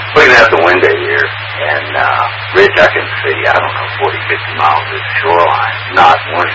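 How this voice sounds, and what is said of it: Weakened voice from sore throat. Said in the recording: “As you can tell, my voice is way down. I had a touch of a sore throat pop up today”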